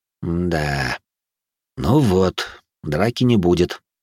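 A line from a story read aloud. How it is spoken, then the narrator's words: Sighing. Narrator (Russian): вздохнул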